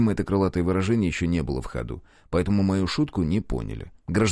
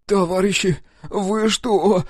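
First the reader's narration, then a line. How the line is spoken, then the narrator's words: Pleading. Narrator (Russian): взмолился он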